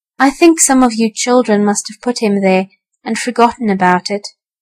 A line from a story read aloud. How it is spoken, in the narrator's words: said Mrs